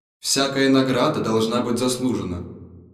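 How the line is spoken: Dry objection, head. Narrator (Russian): Сухо возразила голова

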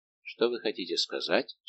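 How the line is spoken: Plain. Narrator (Russian): спросил Людовик

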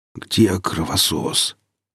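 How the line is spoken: Strained hoarse wheeze. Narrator (Russian): с трудом прохрипел я

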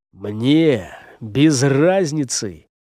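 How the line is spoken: Tired. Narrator (Russian): устало вымолвил следопыт

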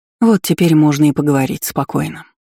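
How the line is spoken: Healer's relieved sigh. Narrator (Russian): вздохнула знахарка

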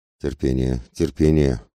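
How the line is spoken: Muttering to himself. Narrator (Russian): бормотал про себя

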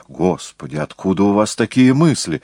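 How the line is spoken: Exclamation. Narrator (Russian): воскликнул либретист

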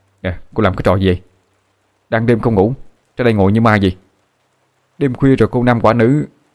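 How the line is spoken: Shouting. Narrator (Vietnamese): Anh hét lên

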